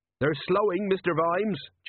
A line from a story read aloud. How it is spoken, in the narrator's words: Jenkins called out